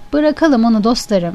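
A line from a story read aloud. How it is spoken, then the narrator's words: Plain. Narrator (Turkish): dedi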